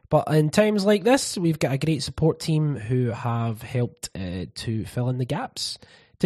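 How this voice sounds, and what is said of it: Sick-sounding voice. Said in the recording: “As you can probably hear from my voice, illness has consumed”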